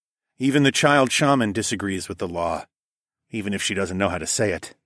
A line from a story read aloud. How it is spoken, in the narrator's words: I said